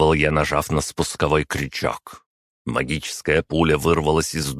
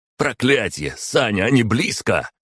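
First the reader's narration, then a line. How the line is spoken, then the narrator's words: Shouted. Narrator (Russian): крикнул Михаил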